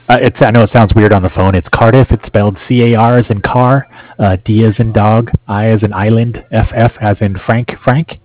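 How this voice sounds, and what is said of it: Hoarse, fading voice. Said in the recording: “I'm losing my voice here.”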